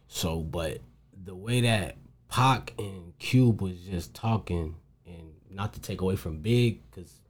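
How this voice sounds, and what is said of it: Heavy New York accent. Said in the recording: “a lot of East Coast playing that too because I my my my goddad and them they from New York ... that's why I kind of got the accent because I grew up around them a lot, and you know it stuck on me heavy”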